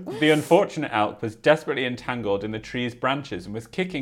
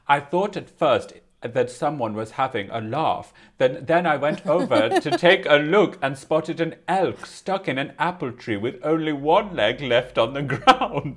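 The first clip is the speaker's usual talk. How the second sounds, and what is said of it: Put-on Swedish accent. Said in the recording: “Swedish accent”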